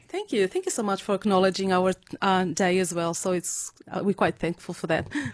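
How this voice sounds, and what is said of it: Slight Portuguese accent. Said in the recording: “you've still got a little bit of an accent... I guess you'd spend some time in Portugal... I came here too late to lose the accent”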